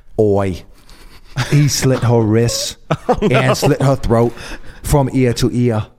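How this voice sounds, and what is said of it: Poor put-on Australian accent. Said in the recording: “I'm so scared by your Australian accent... My Australian accent, I told you it sucks.”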